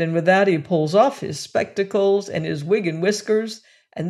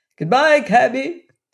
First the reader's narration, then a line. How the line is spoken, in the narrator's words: cried